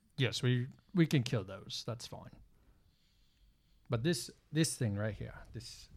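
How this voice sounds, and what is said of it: Puts on a possibly Australian accent. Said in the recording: “what's with the new accent? ... Are you doing an Australian thing?”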